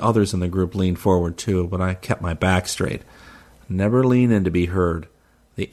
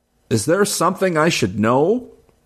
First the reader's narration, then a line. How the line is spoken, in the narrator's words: shouted above the music